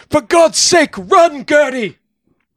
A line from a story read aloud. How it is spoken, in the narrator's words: James felt the blade cut into his skin and yelled